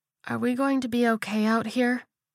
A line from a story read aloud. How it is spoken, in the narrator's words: Florence asked, her voice small